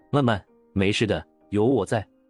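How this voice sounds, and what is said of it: Quiet, gentle but tense voice. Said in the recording (Chinese): “小声的安慰着，也许他也想尽量让自己的声音像平时一样温柔。可是他的声音此刻却充满了紧绷和警惕”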